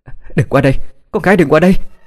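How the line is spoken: Frantic scream. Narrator (Vietnamese): Trần Tuyết đã hét lên

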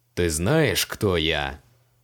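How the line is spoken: Menacing question, mage. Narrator (Russian): грозно спросил его маг

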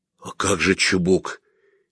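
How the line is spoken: Quiet, hurt question. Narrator (Russian): тихо и обиженно спросил я

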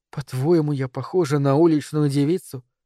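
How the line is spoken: Sad question. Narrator (Russian): печально спросила она

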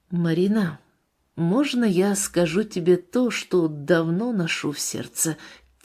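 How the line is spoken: Quiet. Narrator (Russian): Тихо начал он

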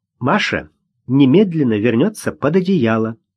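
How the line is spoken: Stern. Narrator (Russian): строго сказала

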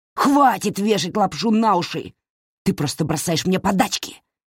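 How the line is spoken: Bark. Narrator (Russian): рявкнул Дуги

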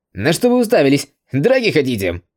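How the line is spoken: Reckless shout. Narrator (Russian): Безрассудно закричал один из японцев

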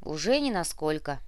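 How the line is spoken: Grumbling. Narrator (Russian): проворчал Муба

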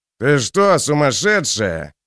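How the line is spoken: Growled. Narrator (Russian): прорычал здоровяк

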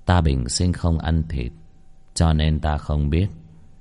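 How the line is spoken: Light, gentle, amused. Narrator (Vietnamese): Vị nhận lợi cung hình dung cổ quái bỗng nhiên cười một cái, rất nhẹ nhàng nói

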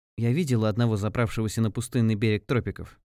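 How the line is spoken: Plain. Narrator (Russian): ответила девушка

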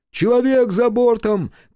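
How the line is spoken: Shouted. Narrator (Russian): крикнул Кику

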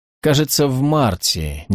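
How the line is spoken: Uncertain reply. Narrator (Russian): неуверенно ответила МакБаннерман

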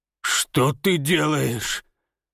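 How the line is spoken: Hoarse rasp. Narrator (Russian): прохрипел Ефим

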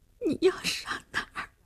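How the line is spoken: Crying while speaking. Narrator (Chinese): 林星哭着说

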